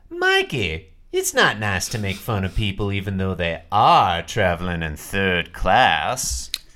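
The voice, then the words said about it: Put-on Southern or transatlantic accent. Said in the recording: “You do a southern accent ... almost see her as more of like a 1930s style transatlantic accent ... Well done ... Excellent”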